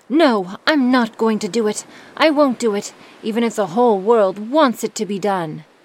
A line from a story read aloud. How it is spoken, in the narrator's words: he cried out very loudly